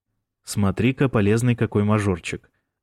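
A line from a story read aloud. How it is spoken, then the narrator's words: Approving snort. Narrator (Russian): одобрительно хмыкнул Бран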